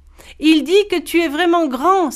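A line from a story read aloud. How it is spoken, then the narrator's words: Exclaimed. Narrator (French): s'exclama Boon Boy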